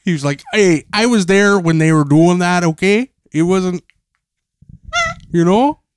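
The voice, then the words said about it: Put-on New York accent. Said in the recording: “He's got a New York accent. ... that's a good accent.”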